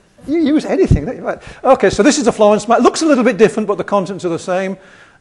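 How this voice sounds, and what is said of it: Yorkshire accent. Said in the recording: “I have a Yorkshire accent”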